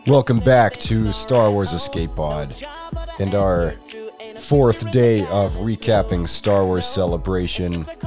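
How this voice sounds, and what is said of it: Strained, deteriorating voice. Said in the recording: “My voice just hit the fan as I've been progressively getting worse and worse.”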